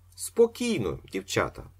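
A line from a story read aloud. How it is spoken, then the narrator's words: Plain. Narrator (Ukrainian): сказав Остап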